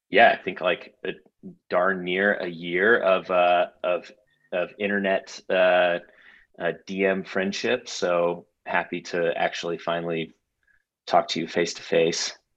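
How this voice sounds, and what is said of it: Strong accent. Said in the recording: “my accent's a little too much”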